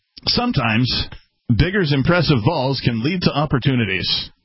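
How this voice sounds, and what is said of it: Reads in a radio announcer voice. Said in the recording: “in my best radio voice”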